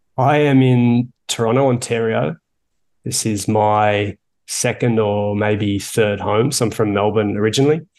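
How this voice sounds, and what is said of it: Australian accent. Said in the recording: “everyone can hear the Australian accent”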